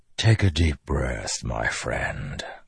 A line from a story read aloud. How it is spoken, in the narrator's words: Odium whispered